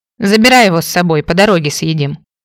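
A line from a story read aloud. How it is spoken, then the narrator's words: Hurried mutter. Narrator (Russian): буркнула, чувствуя, что припекает и пора срочно бежать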